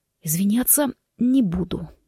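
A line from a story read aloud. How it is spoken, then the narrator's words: Hoarse wheeze. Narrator (Russian): прохрипел Форест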